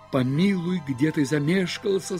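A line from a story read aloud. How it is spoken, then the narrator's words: Plain. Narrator (Russian): сказал мне кто-то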